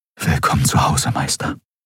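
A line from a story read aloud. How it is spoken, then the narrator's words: Whisper. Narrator (German): flüsterte er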